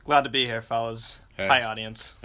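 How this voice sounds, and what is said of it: Imitates another person's voice. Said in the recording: “Was that your me imitation? What the fuck was that? ... it was weird as shit.”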